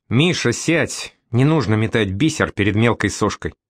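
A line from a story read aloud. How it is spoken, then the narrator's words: Through gritted teeth. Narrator (Russian): Помощница бросает сквозь зубы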